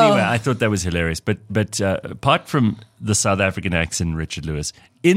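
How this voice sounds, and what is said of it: Usual voice. Nothing is said of it.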